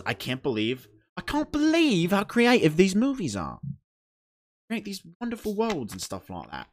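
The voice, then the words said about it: Bad put-on British accent. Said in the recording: “Horrible British accent.”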